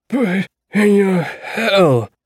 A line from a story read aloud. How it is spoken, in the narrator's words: Percy said in his rough, dying voice